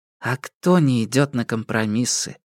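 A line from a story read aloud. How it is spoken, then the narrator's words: Quiet remark. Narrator (Russian): тихо заметила Го Сяо Фэнь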